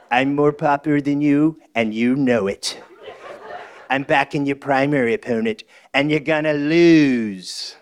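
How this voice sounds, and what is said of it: Donald Trump impression. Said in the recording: “That was not Donald Trump. ... his Trump impression”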